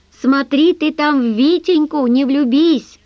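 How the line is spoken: Shouted after someone. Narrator (Russian): он крикнул ей вслед

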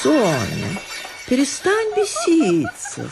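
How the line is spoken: Singsong. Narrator (Russian): сказала она нараспев

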